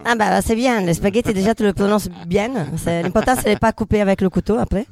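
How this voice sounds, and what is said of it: French with Italian accent. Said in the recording (French): “je suis italienne ... français avec accent italien”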